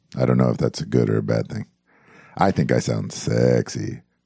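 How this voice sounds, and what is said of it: Sick, deeper voice than usual. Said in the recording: “my voice is a little under the weather, so I'm a little deeper than usual”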